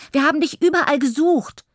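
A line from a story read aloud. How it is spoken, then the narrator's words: Calling out. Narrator (German): ruft Toni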